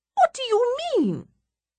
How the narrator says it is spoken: A voice is shrieking behind me

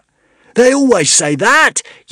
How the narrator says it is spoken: yelled Zar in outrage

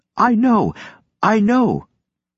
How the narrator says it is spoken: choked out

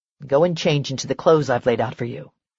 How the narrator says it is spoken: he said in a controlled voice

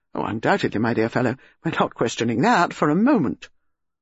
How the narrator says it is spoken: Melchett said quickly

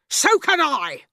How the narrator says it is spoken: Miss Trunchbull snapped

